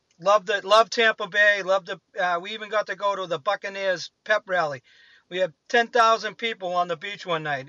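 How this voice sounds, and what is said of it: Boston accent. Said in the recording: “Got my accent ragged on a bunch, but what do I care? I'm from Boston. I can't do it any better.”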